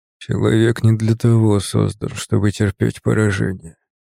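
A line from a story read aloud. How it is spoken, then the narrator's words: Quiet, precise enunciation. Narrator (Russian): говорил он тихо, четко выговаривая каждое слово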